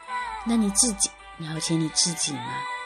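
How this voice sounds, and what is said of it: Quiet muttered line. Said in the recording (Chinese): “小声嘀咕了一句”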